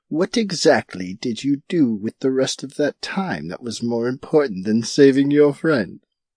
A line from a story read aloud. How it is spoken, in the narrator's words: said with a chuckle